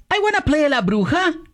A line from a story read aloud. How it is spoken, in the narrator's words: exclaimed Pancha la Pingüis